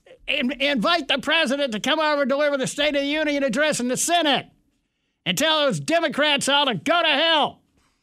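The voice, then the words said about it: Imitates another person's voice, fired up. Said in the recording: “I'm doing my Levin impression... Levin was having a conniption fit... he gets fired up”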